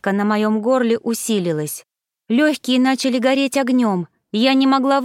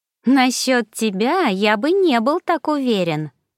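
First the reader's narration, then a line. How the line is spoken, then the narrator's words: Mocking drawl, dark lord. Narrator (Russian): насмешливо протянул повелитель тьмы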